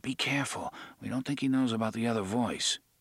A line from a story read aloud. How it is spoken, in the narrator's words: Eddie placed his lips against Jake's ear, and whispered